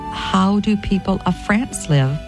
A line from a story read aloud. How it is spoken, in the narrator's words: she asked him